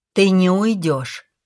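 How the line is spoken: Firm voice. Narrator (Russian): сказал Калин твердым голосом

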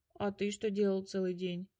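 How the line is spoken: Tired question. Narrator (Russian): спросил устало Мотя

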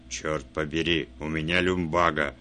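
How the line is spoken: Growling. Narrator (Russian): рыкнул он

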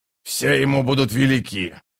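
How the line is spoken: Grumbling. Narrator (Russian): проворчал Троц

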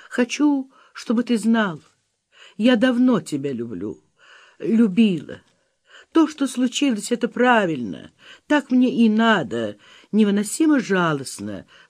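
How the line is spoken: Sobbing. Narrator (Russian): всхлипнула она

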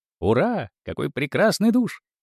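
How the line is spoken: Merry laughter. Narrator (Russian): весело смеялись

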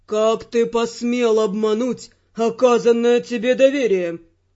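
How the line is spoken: Menacing question. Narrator (Russian): грозно спросил Эрл

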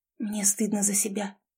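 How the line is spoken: Fearful girl's whisper. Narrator (Russian): шепнула девушка, как будто боялась, что ее услышат

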